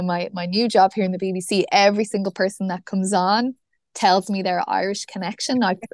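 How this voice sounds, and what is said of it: Irish accent. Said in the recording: “is that an Irish accent?”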